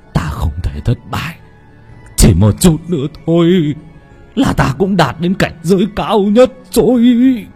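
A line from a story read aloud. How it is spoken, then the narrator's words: Trembling voice. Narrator (Vietnamese): Lão thầy Tà run rẩy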